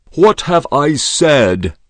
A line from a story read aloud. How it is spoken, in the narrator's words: shouted Din Mohammed